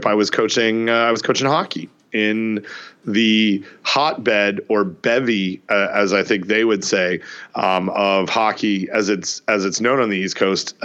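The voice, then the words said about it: Worn, strained voice. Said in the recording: “My voice is suffering a little bit from this trip.”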